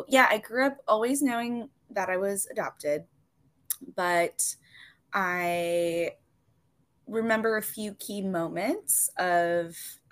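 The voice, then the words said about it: Hoarse voice cutting out. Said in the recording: “if my voice is cutting out a little bit. I am still recovering from some laryngitis ... my voice sometimes does fun things”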